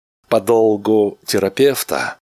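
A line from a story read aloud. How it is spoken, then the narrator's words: Slow. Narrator (Russian): медленно произнес Флинн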